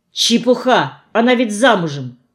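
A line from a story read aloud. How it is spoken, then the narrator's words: Sharp objection. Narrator (Russian): резко возразила я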